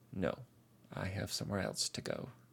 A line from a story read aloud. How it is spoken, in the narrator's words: she sighs